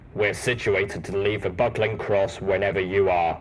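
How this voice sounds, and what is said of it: Deep, rumbling male character voice. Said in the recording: “Steelhoof's deep voice rumbled.”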